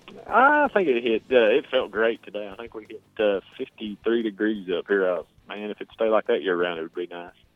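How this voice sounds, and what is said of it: Heavy Southern US drawl. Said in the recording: “you got that heavy redneck country boy accent ... I've got a pretty badly drawn-out southern drawl”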